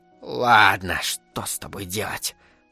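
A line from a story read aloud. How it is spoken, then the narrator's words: Grumbling. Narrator (Russian): проворчала товарка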